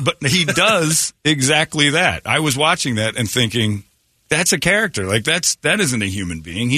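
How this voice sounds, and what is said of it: Usual voice. Nothing is said of it.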